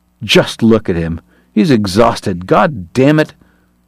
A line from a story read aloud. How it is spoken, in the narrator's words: Uncharmed, Kate snarled